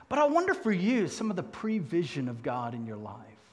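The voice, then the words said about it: South African accent. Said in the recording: “I happened to be born 2,000 miles south in Cape Town, South Africa ... my southern accent was strikingly different from her southern accent.”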